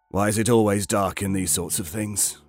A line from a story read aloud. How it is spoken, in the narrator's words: Bartlett chuckled, not quite suspicious, not quite skeptical, not quite nervous, somewhere in between